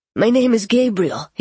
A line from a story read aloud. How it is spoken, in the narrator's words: he said